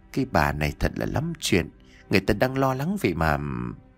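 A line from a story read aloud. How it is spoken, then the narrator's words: Reproachful muttering. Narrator (Vietnamese): Miệng cô lẩm bẩm trách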